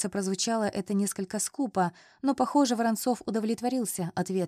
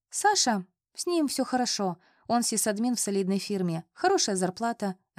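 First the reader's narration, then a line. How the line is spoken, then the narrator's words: Plain reply. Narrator (Russian): ответила я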